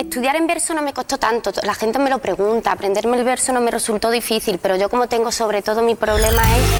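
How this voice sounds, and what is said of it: Andalusian Spanish accent. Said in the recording (French): “Andalousie ... C'est l'actrice qui s'appelle Macarena Gomez. C'est un accent andalou.”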